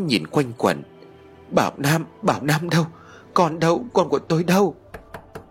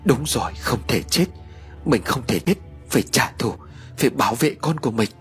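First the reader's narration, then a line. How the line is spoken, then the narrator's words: Muttering. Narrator (Vietnamese): Cô lẩm bẩm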